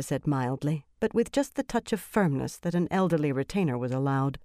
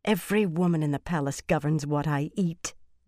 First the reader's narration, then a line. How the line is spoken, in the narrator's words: Elaine replied bitterly